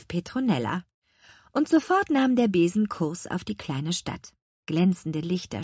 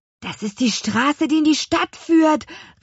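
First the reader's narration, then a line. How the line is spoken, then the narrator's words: Excited calling. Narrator (German): rief Luis aufgeregt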